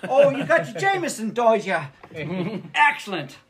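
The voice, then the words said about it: Put-on Irish accent. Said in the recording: “it won't be a fucking British accent. It'll be a fucking Irish accent.”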